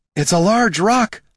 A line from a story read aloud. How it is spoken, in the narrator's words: Laruna shouted